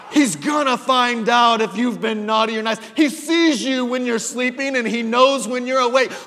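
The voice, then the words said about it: Thick German accent while singing. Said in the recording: “with her big, thick German accent”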